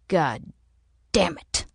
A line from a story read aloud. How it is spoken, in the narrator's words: he spat